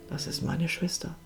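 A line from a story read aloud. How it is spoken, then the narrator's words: Toneless. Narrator (German): sagte Ines tonlos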